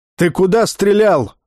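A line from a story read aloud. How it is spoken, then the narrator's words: Yelling. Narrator (Russian): заорал Бер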